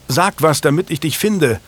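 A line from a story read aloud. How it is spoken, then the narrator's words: Calling out. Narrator (German): rief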